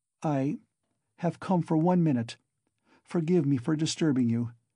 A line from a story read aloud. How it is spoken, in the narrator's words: she began falteringly